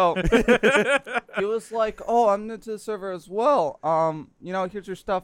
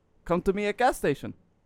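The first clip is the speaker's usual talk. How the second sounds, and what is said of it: Put-on Russian accent. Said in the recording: “That's actually pretty close... the best Russian accent, the less syllables you do, the more accurate it becomes”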